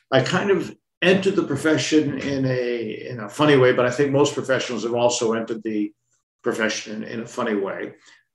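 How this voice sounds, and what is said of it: Boston American accent. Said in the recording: “you could probably tell from my accent, I originally come from Boston, in the United States”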